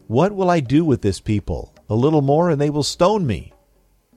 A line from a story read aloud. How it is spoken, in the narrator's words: Moses cried out to the Lord